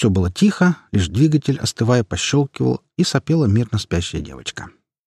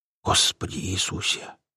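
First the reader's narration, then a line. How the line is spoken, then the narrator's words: Apostle's whisper. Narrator (Russian): прошептал апостол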